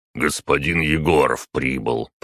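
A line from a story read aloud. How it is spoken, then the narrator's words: Deep bass guard voice. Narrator (Russian): пробасил охранник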